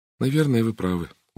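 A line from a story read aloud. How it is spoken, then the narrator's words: Dejected agreement. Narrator (Russian): уныло согласилась Сара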